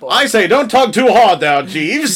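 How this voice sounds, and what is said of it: Put-on English accent. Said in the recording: “I gave him an English accent”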